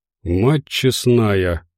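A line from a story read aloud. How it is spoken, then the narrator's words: Breathless exhale. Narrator (Russian): выдохнул Медведев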